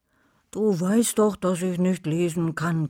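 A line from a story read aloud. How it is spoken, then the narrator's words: Growling. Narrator (German): knurrte Wolfi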